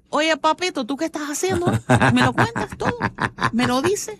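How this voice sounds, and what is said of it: Put-on Cuban Spanish accent. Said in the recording (Spanish): “en acento cubano”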